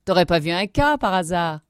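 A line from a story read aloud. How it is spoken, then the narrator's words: Group sneering. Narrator (French): ricanaient les autres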